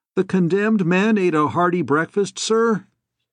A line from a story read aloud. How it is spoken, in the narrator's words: Somebody said cheerfully